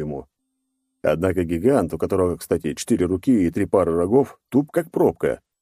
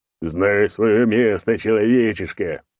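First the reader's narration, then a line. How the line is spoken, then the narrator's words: Roaring. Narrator (Russian): проревел он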